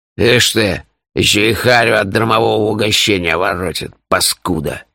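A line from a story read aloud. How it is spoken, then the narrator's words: Angry mutter. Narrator (Russian): Злобно буркнул Пурех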